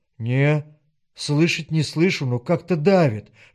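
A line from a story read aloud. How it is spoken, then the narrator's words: Earnest whispered reply. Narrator (Russian): шепнул в ответ Женька, и прежней иронии не было в его голосе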